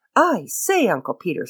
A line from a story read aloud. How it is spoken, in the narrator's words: said breathlessly